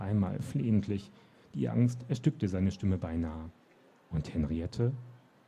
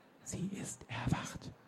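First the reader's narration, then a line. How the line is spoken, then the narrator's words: Whispering. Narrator (German): Die Worte hatte er nur geflüstert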